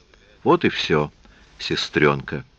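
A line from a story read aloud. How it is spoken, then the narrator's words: Tender. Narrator (Russian): сказал нежно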